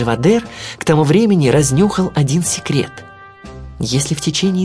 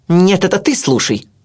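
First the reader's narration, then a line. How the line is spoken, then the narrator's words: Sharp barking. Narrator (Russian): рявкнула она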